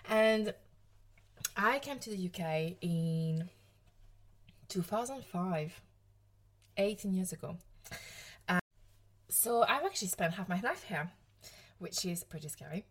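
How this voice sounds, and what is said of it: French accent. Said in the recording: “as you might hear from the French accent, I'm French”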